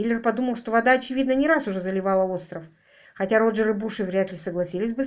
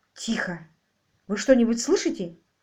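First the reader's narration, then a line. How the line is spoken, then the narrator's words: Halting whisper. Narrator (Russian): спросил Буши прерывистым шепотом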